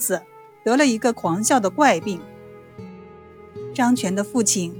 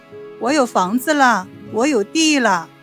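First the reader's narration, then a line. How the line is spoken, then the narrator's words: Joyful shouting with wild laughter. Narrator (Chinese): 张全一高兴，便狂笑不止，成天大喊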